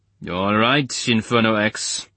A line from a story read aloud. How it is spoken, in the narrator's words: rumbled Muller